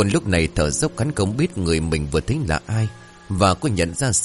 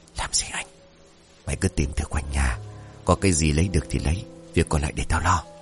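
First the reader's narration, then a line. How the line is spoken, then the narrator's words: Soft question. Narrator (Vietnamese): khẽ hỏi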